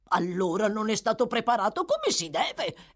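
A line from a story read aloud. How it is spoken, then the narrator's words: Angry exclamation. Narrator (Italian): esclamò Fagin, impallidendo per l'ira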